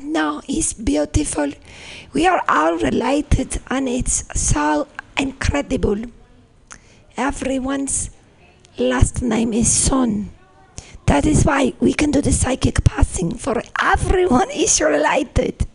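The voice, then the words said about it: Put-on Icelandic accent. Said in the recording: “My Iceland accent.”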